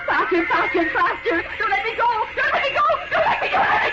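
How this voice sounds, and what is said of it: Screaming. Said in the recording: “Why am I screaming? ... I'll stop screaming.”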